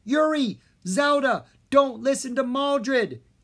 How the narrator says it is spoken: Jean yelled

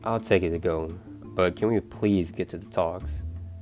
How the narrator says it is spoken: Aaron says, calmly as he can

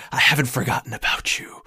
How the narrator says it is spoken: You hear the voice of that Templar whispering in your ear

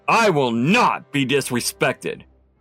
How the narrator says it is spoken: her father shouted

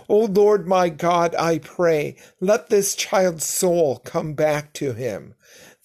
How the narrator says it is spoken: cried out to the Lord and said

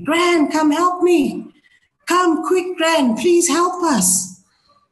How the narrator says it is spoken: she screamed

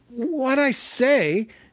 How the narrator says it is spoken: said Bilbo, gasping

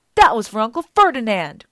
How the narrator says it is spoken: Grover yelled back

